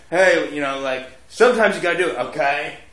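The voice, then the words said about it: Imitates another person's voice. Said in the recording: “how to do an impression of you ... It's mostly the okay”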